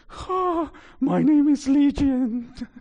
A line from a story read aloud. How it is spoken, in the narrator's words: he said in a creepy voice